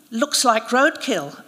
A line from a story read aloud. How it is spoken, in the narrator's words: I said